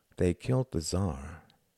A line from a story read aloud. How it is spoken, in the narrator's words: murmured Tom